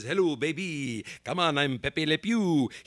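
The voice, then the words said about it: Pepe Le Pew French accent impression. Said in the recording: “Pepe Le Pew from the great Looney Tunes characters, a skunk, who would have had the French accent”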